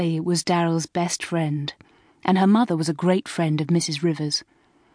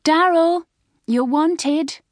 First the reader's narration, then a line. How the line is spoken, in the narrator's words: shouted Sally